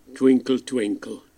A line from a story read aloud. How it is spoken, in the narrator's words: said Harry gruffly